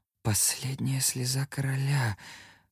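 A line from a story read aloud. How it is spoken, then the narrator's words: Whisper. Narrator (Russian): прошептал я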